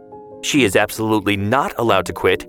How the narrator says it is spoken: Emily's mother would cut in sharply

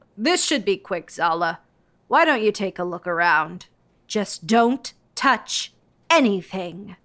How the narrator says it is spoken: Miss Herpel sneered

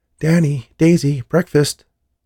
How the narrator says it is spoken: shouted up the stairs

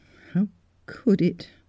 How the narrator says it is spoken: murmured the girl

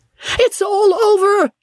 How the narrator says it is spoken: he shrieked

